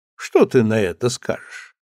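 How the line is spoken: Laughing. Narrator (Russian): Царь рассмеялся и сказал визирю

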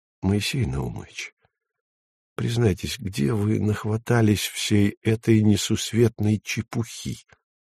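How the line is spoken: Soft. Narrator (Russian): мягко сказал

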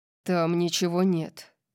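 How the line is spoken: Growled. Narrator (Russian): прорычал он

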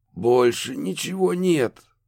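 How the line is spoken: Hoarse exhale. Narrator (Russian): хрипло выдохнул Роуэн

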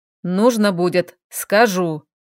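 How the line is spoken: Growl. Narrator (Russian): рыкнул Айрел

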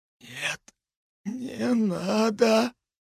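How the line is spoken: Silent mouthed whisper. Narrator (Russian): Его губы беззвучно прошептали

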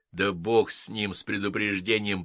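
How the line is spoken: Grumbling. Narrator (Russian): проворчал Мейсон

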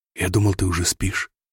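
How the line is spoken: Quiet speech. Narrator (Russian): тихо сказал

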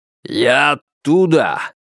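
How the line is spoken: Barked. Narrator (Russian): рявкнул Кайрат

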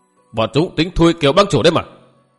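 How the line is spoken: Sharp snap. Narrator (Vietnamese): Kiêu Tử cáo gắt

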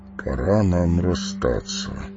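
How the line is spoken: Plain. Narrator (Russian): сказал Фарамир

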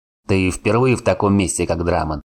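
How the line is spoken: Smirking grunt. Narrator (Russian): хмыкнул Варн

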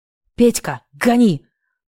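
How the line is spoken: Growl. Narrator (Russian): прорычал

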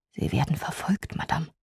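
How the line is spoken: Whisper. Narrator (German): mir zuflüsterte

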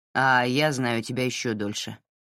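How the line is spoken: Grumble. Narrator (Russian): проворчал Сэл

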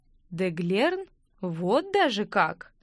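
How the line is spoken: Interested drawl. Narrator (Russian): протянул капрал с новым интересом

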